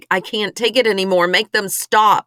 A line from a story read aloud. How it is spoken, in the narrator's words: scream to try to block the sound of their voices, yelling